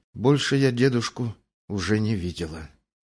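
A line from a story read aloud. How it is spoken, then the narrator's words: Added quietly. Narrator (Russian): добавила она тихо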